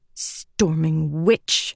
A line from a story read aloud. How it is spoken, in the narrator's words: Lift muttered